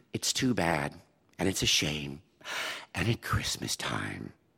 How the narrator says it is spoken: sighed

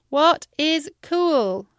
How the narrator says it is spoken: I shouted into the wind

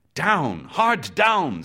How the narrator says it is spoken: second mate roared

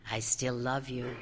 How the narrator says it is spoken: the girl's plate whispered up at her

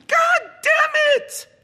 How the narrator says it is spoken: the man shouted

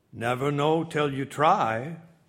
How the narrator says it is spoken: Babcock replied gravely

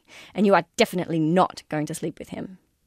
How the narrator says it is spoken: I told myself sternly

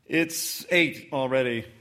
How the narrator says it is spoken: I said

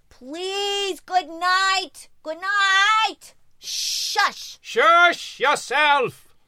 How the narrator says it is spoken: I called out in Yiddish

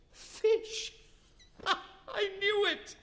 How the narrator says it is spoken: his daughter-in-law laughed

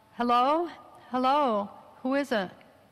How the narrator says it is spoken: She called out

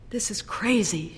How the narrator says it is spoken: murmured

